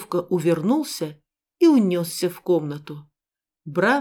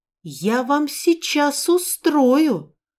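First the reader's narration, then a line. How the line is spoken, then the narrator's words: Little sister shrieking. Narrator (Russian): взвизгнула сестренка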